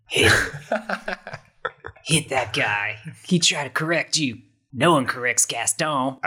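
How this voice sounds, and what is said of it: Gaston character voice accent. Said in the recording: “I love this accent.”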